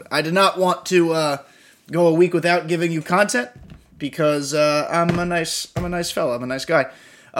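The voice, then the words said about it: Wonky, sore-throated voice. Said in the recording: “my voice is a little bit wonky right now. I'm getting over a cold, a little bit of a sore throat action... my throat is feeling a little funky”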